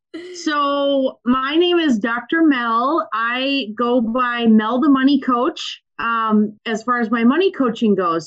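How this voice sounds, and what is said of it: Thick Minnesotan accent. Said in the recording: “I feel so Minnesotan when I talk to her because my accent gets thicker ... I say Minnesota and I say you betcha and ofta all the time”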